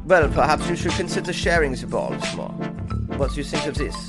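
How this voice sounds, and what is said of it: Bad fake German accent. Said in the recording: “That was the worst German accent ever, especially when I was doing the female one.”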